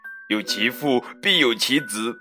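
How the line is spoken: Grandmother laughing. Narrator (Chinese): 猪奶奶笑着回答

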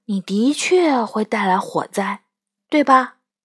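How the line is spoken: Sad sigh. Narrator (Chinese): 他叹了口气，一脸悲伤

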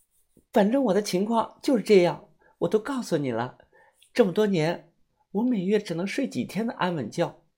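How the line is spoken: Quiet, cold voice. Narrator (Chinese): 夏水水小脸冻得通红，他搓着手，小声地说

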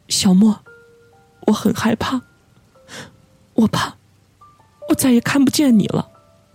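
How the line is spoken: Choked sobbing. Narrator (Chinese): 何志颖 哽咽着说道

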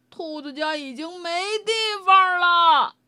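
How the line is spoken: Shouting. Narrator (Chinese): 道格拉斯大叫道

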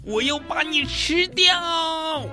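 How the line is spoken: Howling. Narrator (Chinese): 麦克斯也嚎叫着

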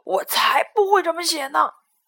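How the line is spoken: Lion roaring. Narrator (Chinese): 狮子大吼

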